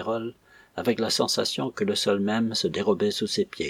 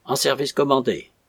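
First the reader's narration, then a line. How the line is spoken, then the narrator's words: Grunting. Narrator (French): ajouta-t-il dans un grognement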